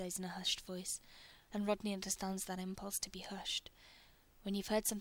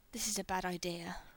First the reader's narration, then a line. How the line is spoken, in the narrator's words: Rodney mumbles between kisses